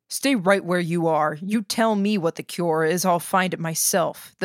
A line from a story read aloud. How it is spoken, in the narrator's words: said